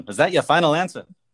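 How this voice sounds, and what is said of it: Imitates another person's voice. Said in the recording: “my best Regis Philbin impression.”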